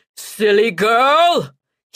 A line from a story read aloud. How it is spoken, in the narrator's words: he bellows